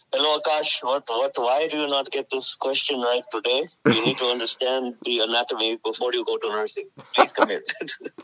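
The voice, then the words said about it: Put-on Indian accent. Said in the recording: “the Indian accent ... What's your Indian accent sound like?”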